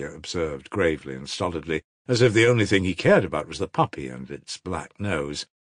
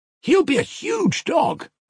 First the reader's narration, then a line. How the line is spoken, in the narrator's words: cried one of the boys